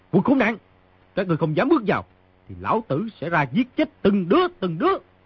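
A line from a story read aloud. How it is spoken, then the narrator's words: Shouting threat. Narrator (Vietnamese): người trong phòng quát tiếp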